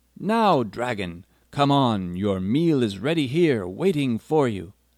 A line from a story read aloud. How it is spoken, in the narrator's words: called out loudly